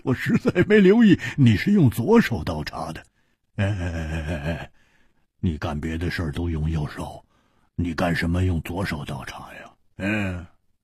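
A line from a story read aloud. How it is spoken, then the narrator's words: Laughing suddenly. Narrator (Chinese): 蝴蝶花默然半晌，忽然又笑了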